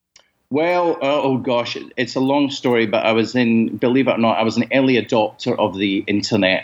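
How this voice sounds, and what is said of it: Strong Scottish accent. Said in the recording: “it's been a pleasure hearing your accent. It's been a long time since I've heard a really good Scottish accent. ... I don't hear any Australian in there.”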